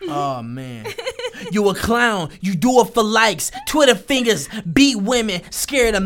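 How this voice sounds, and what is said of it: Usual voice. Nothing is said of it.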